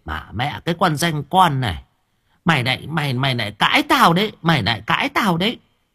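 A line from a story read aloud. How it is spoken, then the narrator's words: Old woman's shrill hiss. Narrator (Vietnamese): Bà cụ Vân rít lên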